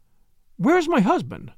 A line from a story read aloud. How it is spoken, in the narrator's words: she cried